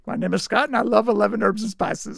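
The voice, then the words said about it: Poor imitation of another person's voice. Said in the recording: “his Colonel Sanders voice ... that was horrible. That was your worst impression”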